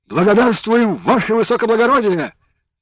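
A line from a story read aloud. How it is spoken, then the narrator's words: Young men barking in unison. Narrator (Russian): гаркнули парни в один голос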